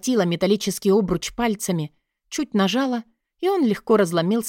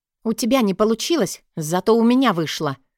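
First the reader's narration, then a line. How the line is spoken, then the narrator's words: Said angrily. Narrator (Russian): сердито произнесла я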